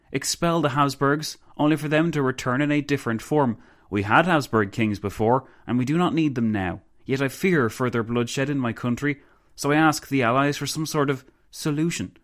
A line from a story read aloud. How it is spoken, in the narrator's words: the Countess exclaimed